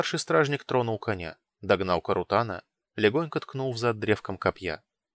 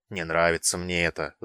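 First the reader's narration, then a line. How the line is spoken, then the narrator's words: Grumbling. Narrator (Russian): заворчал Неокол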